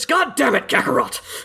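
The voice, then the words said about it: Angry yelling cartoon character voice. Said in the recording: “I gotta try to do an angry Vegeta ... Angry Dad Vegeta? ... Yeah, it's Dad Vegeta.”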